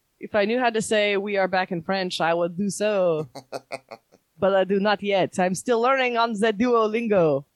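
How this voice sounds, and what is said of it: Bad put-on French accent. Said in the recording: “That is a horrible French accent.”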